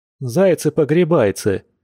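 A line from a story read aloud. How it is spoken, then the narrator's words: Chuckle. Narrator (Russian): хохотнул Яр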